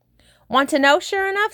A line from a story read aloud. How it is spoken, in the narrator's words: said Harvey mysteriously, his round face beaming more brightly than ever